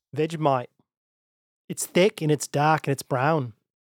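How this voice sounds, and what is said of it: Attempted Australian accent, slips. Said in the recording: “My accent is... ... You did all right, man. ... I ejected on the brown.”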